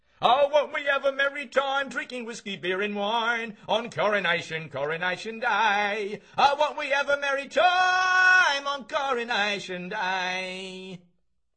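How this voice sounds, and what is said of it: Singing off-key in Cockney accent. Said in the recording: “singing out of tune with a Cockney accent.”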